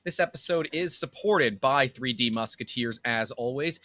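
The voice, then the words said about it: Radio announcer voice. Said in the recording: “I'm really actually feeling your radio voice right now.”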